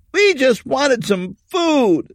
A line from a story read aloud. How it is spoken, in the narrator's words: the teenager's voice shouted back